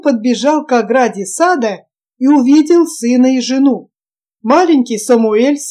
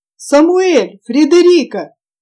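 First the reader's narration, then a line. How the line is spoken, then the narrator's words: Joyful shout. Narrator (Russian): радостно закричал Джонсон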